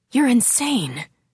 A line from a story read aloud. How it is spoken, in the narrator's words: he whispered